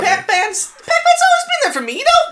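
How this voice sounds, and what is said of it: Suddenly high-pitched voice. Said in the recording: “Why did your voice get so high just now?”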